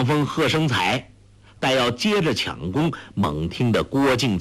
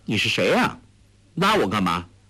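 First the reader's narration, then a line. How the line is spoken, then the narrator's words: Cold. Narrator (Chinese): 黄蓉…冷冷地说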